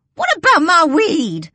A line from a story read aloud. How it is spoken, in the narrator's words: Lucille hollers, jogging after us